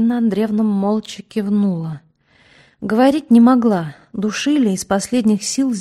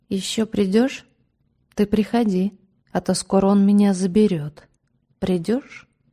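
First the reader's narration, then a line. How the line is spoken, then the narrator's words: Quiet child's question. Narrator (Russian): Алеша тихонько спросил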